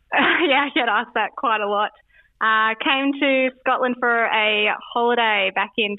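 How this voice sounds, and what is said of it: Australian accent. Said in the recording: “it's not a Scottish accent, as you'll pick up in a moment. From the Gold Coast”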